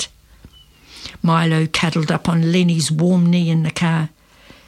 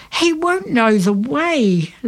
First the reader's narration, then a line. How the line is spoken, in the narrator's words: Lenny cried